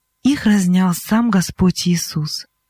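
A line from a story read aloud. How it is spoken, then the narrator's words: Calm answer. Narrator (Russian): Спокойно Вонтуань ответил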